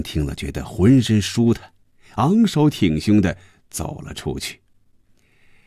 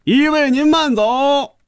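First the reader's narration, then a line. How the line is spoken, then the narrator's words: Group shout in unison. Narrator (Chinese): 所有的小伙子又齐声发出一声喊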